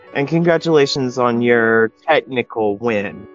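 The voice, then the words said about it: Sarcastic congratulatory tone. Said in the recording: “And I say that sarcastically.”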